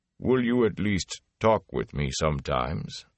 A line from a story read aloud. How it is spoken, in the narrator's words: Loyal sighed, a bass rumble